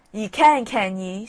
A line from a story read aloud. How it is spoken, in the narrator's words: snarled the wolf